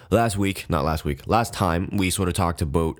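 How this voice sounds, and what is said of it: Canadian-sounding pronunciation of 'about'. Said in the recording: “wow, I sounded really Canadian there, didn't I? That's just kind of how I say about.”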